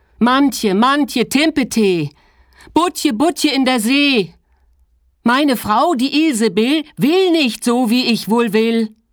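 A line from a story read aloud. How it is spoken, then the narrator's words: Repeated call. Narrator (German): zum zweiten Mal rief er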